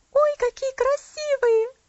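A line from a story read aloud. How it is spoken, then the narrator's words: Exclaiming. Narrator (Russian): воскликнула она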